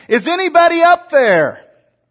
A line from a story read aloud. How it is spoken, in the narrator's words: Filled with terror, he called out, yelling up toward the edge of the canyon